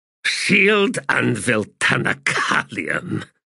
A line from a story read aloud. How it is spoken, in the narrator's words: he said, adding a disgusted grunt